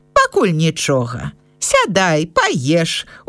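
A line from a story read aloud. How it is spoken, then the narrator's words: Old woman, smiling. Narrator (Belarusian): усміхнулася бабуля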